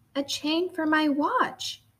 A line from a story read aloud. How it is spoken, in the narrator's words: exclaimed